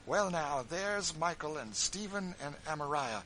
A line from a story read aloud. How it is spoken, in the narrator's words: exclaimed Phineas joyfully